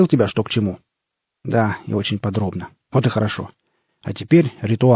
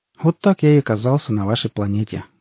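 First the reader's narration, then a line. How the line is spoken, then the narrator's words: Sad. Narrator (Russian): грустно сказал Квангар 666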